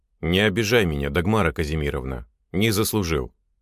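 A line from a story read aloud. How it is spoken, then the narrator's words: Dignified, dry reply. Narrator (Russian): ответил внутренний реалист с достоинством, но неожиданно сухо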